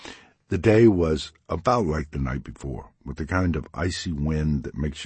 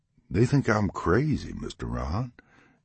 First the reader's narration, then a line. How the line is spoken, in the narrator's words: he said with a chuckle